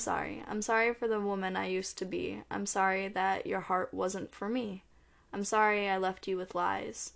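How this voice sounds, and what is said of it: Hoarse, fading voice. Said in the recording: “I'm also losing my voice”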